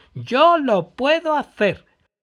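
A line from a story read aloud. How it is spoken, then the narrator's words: Loud shout. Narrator (Spanish): Gritó en voz alta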